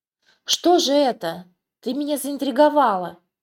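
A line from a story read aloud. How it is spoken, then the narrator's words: Young man's exclamation. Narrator (Russian): воскликнул юноша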